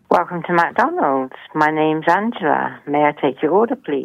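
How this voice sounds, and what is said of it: Beautiful English accent. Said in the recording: “beautiful English accent ... her sexy voice”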